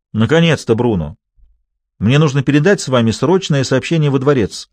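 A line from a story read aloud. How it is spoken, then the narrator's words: Commanding. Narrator (Russian): обычным своим повелительным тоном заявила она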